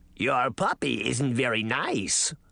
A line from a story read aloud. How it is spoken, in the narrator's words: the frog girl croaked